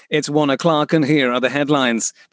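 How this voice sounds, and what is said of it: Formal newsreader voice impression. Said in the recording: “did a really good impression of a newsreader.”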